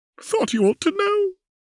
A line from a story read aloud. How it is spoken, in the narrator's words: moaning